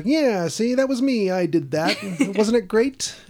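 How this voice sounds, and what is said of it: Imitates another person's voice, 1950s style. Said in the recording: “That's a dead-on impersonation. ... It's the 50s, and we all kind of talk like this still.”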